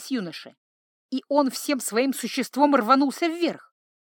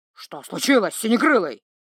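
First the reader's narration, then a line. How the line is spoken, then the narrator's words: Angry snap. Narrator (Russian): зло бросил тролль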